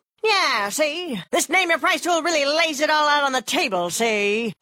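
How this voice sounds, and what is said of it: 1930s gangster voice. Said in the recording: “this is my impression of a 1930s gangster”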